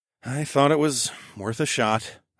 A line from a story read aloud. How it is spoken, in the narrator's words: I sighed